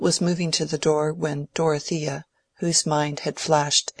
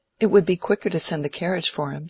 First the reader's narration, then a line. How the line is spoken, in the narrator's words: said Dorothea